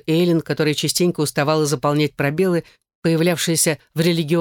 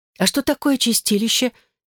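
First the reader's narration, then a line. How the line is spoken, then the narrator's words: Frightened question. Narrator (Russian): испуганно спросила Элизабет, поскольку слово звучало как-то страшновато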